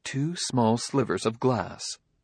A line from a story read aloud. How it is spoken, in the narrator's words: said the robot coolly